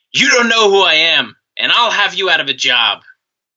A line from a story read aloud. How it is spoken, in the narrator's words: Flair shouted